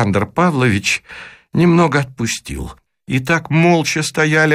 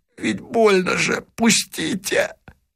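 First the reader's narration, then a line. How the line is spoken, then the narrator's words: Hoarse. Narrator (Russian): хрипло сказал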